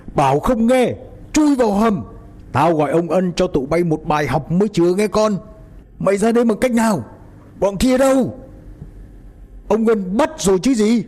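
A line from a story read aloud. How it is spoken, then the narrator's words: Old man's angry shout. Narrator (Vietnamese): lão hầm hầm, hét lớn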